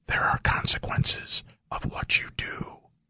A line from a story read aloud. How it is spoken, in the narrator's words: a soft voice whispered in her ear